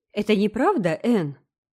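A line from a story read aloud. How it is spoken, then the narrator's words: Exclaimed. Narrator (Russian): воскликнул Гилберт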